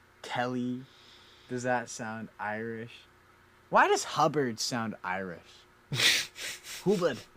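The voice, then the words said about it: Poor fake Irish accent. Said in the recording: “That was a gross fake accent. That was not good.”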